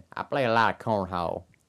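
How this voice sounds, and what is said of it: Put-on redneck accent. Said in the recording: “You'd have to say with a redneck accent.”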